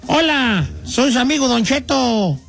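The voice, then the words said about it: Old man character voice. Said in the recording (Spanish): “hace la voz de viejito.”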